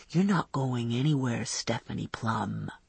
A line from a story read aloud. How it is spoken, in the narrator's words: he whispered